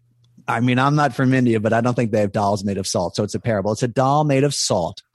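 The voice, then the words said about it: Philadelphia accent. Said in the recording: “that's my Philly accent”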